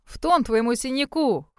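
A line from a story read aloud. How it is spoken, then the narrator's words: Snorting. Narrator (Russian): хмыкнул другой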